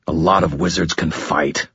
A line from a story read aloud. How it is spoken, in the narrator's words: I growled